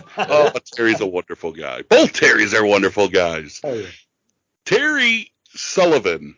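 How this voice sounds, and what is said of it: Usual voice. Nothing is said of it.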